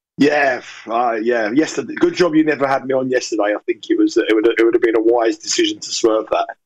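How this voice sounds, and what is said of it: Croaky, partly lost voice. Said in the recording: “lost my voice ... a little bit. I've got a bit of a croaky voice. I sound a bit like Rod Stewart this morning.”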